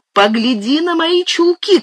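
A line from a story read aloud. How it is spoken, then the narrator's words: Threatening shout. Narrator (Russian): крикнула она, грозно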